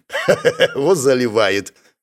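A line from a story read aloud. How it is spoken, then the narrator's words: Orc guard chuckling. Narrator (Russian): хохотнул орк-конвоир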